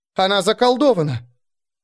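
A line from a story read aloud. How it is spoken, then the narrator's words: Loud yell. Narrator (Russian): Кая набрала побольше воздуха и заорала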